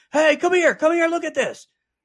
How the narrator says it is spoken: he yells

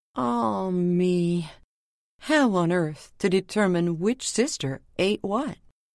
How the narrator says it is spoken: he ... sighed out to the rising sun

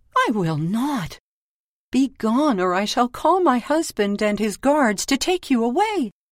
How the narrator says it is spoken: she cried

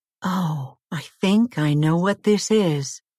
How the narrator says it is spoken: exclaimed

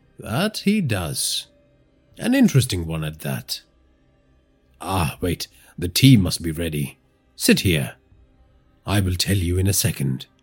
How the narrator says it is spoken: Idea said

